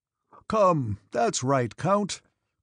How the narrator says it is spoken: cried the staff captain

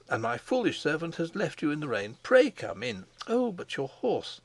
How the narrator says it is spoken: she cried

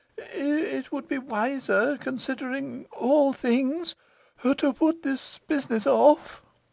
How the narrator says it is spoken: he faltered

